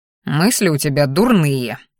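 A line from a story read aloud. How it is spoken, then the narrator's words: Displeased snort, dragon. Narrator (Russian): недовольно фыркнул дракон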